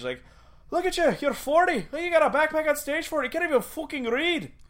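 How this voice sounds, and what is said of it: Irish accent impression. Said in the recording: “That was a good accent. ... I've been trying, man. ... an Irish guy like that”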